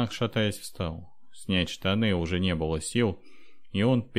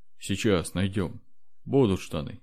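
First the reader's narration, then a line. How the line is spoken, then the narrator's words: Sad. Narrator (Russian): грустно сказал Никат, глядя на трупик дочери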